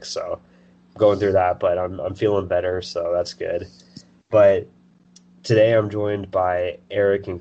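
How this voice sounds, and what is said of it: Voice sounds sick with a cold. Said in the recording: “apologize for my voice if it sounds different. I've been going through a cold lately... people can tell that I'm sick”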